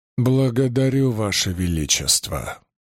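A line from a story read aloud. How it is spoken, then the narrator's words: Forced out with effort. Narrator (Russian): сумел выдавить он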